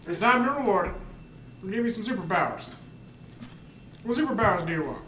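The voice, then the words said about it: Imitates the US president's voice. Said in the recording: “Great impression. ... That was amazing. That was really good.”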